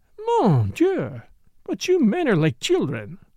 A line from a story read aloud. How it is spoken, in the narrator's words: exclaimed Morel